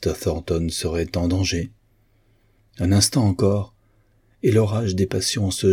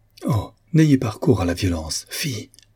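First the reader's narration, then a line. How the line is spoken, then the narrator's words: Exclaimed. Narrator (French): s'écria-t-elle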